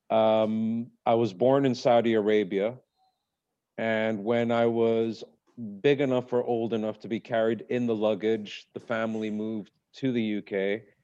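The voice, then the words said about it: Strong British accent. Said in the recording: “my strong British accent”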